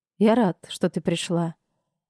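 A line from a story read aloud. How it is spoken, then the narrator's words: Low voice. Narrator (Russian): все же сказал вполголоса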